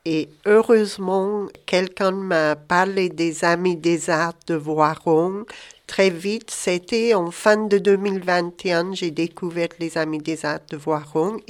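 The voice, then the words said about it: Scottish accent speaking French. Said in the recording (French): “On entend un petit accent quand même, hein? ... Je suis d'origine écossaise, mais j'habite en France depuis 33 ans, mais j'ai jamais perdu mon accent.”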